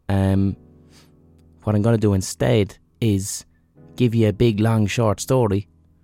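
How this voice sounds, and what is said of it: Sick voice, swollen throat. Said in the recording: “I'm a little bit under the weather. I don't know if you can hear it in my voice, but I've got swollen glands. I've got a swollen throat and a little bit of a fever.”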